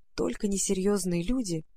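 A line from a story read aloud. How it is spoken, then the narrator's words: Hurried whisper. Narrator (Russian): едва успела шепнуть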